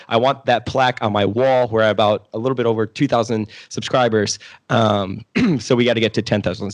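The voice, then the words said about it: Hoarse, fading voice. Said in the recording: “my voice is kind of gone. I hope I'm not getting sick”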